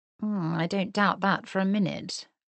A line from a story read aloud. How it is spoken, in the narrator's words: murmured Miss Bingley, making no effort to disguise her desire to bring their conversation, such as it was, to an immediate end